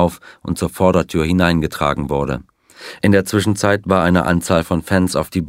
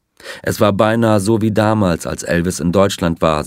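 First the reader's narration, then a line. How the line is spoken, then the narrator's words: Plain. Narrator (German): sagte er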